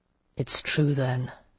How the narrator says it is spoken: Jocelyn said in a low voice

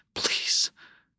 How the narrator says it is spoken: she whispered

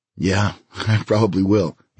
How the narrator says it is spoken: he said, and began laughing himself

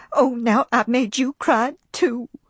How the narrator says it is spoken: sobbed Pitypat, in a pleased way

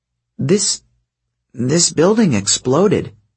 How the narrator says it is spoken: Piper stammered

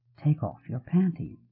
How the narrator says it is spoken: he murmured

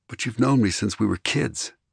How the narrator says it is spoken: Ari murmured

